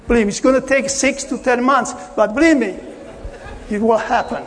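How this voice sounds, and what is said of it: Non-native English accent. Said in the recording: “I hope you understand my accent”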